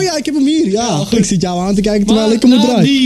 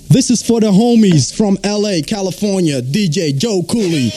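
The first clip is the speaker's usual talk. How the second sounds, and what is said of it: Put-on American accent. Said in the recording (Dutch): “I'm gonna do this in the American style... met mijn accent ook nog erbij”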